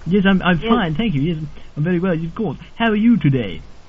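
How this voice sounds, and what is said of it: Put-on posh English accent. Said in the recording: “the Kensington accent ... that's the same English dude accent ... That's an awesome English dude accent.”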